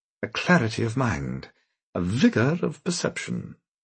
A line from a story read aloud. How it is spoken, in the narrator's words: murmured Simon Talbot